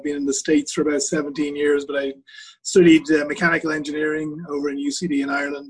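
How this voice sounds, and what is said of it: Slight Irish accent. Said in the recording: “I'm born and raised in Ireland, and hopefully there's a small bit of an accent left there.”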